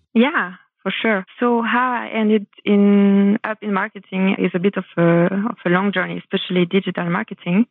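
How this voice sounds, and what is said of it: French accent. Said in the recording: “hide my accent for a bit, but now I reveal it ... you just told us that you're French. I love that. Love the accent.”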